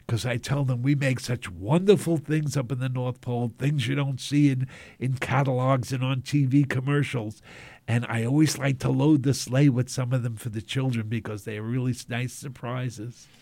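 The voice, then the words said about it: New York accent. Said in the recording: “Santa, you sound very much like a New Yorker”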